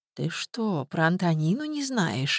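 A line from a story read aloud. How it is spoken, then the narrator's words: Slow question, old woman. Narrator (Russian): медленно спросила старушка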